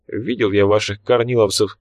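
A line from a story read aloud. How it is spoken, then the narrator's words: Calm, emotionless. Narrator (Russian): спокойно, без тени эмоций, отозвался генерал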